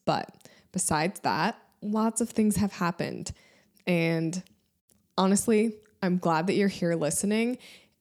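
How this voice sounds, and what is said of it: Voice sounds sick. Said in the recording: “I'm a little bit sick, so you can kind of hear that in my voice.”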